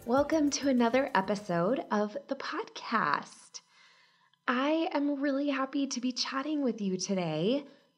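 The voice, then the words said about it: Slightly off voice from a cold. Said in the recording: “My voice is a little iffy. I'm getting over a cold right now. So I think just my voice is going to sound different ... my sick voice”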